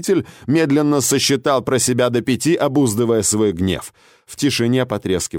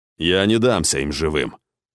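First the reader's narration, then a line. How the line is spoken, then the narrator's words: Ruler speaking dryly. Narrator (Russian): сухо произнес правитель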